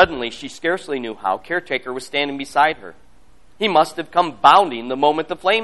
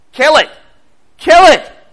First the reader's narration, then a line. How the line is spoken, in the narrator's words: Amanda screamed